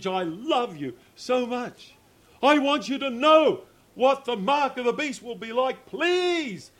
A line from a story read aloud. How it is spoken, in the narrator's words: he's pleading